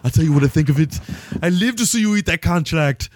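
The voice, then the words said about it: Imitates another person's voice. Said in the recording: “do my Arnie impersonation”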